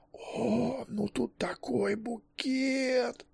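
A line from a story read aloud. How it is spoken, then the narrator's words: Groaning. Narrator (Russian): простонал психоаналитик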